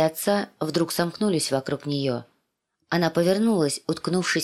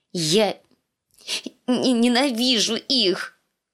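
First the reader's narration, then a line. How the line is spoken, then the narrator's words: Forced out through sobs. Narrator (Russian): выдавила сквозь рыдание раскрасневшаяся Ария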